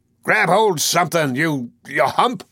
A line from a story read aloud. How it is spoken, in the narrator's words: Wolf Larson shouted from the poop